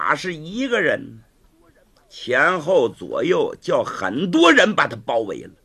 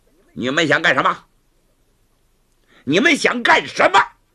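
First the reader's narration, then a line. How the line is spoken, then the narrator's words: Stern question. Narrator (Chinese): 月亭厉声问道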